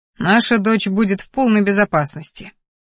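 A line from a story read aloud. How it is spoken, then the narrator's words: Father's skeptical snort. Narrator (Russian): хмыкнул Кериан, отец Ассирии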